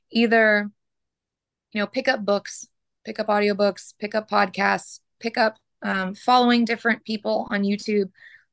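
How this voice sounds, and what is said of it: Hoarse, fading voice. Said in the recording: “Sorry, I'm losing my voice. ... Sorry, I am just losing my voice.”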